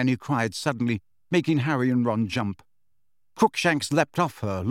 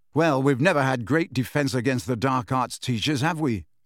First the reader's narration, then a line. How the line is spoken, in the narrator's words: said Harry